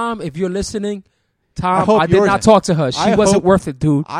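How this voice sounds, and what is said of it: Usual voice. Nothing is said of it.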